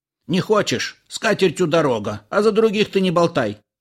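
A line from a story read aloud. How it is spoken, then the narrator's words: Barking snap. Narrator (Russian): рявкнул Илико на Иллариона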